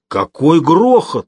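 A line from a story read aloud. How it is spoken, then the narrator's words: Exclamation. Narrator (Russian): воскликнул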